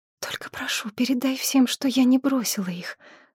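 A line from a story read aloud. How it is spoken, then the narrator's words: Whispered plea. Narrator (Russian): шепотом попросила девушка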